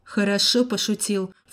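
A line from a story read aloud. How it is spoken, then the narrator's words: Snort. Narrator (Russian): фыркнул я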